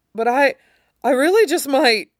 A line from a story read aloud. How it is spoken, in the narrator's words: Marco choked out